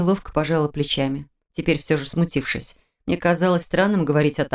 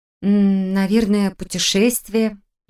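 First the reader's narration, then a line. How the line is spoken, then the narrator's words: Uncertain admission. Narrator (Russian): неуверенно призналась я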